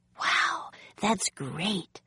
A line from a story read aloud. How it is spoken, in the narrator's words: whispered Annie